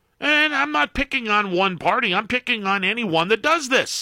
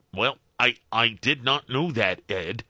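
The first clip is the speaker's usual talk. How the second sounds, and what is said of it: Imitates another person's voice. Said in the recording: “Pardon the ignorant impersonation... Oh, sounded pretty good. Pretty accurate.”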